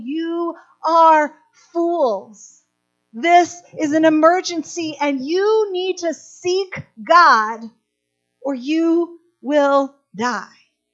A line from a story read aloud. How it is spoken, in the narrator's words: Amos comes in screaming, saying